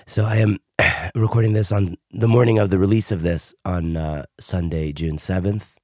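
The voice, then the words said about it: Hoarse, weakened voice. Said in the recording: “as you can hear, I don't even have my voice today. I lost my voice over the weekend.”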